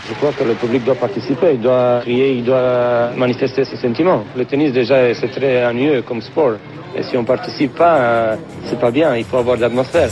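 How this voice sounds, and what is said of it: Distinctive accent speaking French. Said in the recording (French): “Ilie Năstase, et toujours cet accent.”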